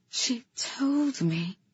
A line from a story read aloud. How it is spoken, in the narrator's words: Kata breathed